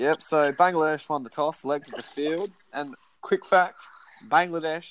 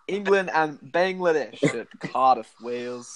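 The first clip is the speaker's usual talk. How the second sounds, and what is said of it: Put-on English accent. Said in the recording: “I was trying to put on the English accent.”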